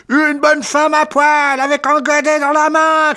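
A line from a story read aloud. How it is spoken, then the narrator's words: Shouting. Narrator (French): cria Kananov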